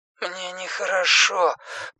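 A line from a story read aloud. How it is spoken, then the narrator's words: Son's mumble. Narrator (Russian): пробормотал сын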